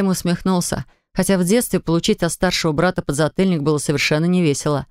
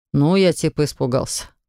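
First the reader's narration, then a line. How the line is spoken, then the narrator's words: Snort. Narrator (Russian): хмыкнул он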